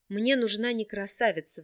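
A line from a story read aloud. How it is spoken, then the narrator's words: Sigh. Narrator (Russian): вздохнул Рин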